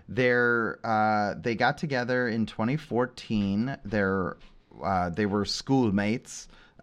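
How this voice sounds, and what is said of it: Poor attempt at New Zealand accent. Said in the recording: “That was not a New Zealand accent. Remind me not to try that anymore.”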